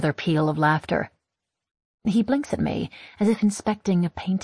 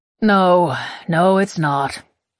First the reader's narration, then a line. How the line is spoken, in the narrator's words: he sighs, still smiling